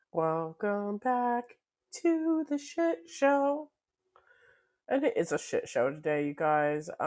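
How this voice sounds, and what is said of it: Croaky, froggy voice. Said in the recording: “I sound like a frog.”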